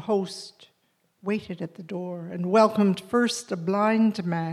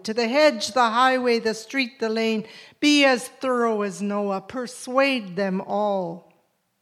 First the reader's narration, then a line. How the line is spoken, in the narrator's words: the great man bellowed